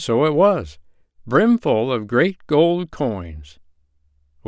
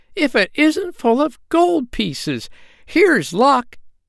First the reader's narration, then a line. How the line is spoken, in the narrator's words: she cried, fair amazed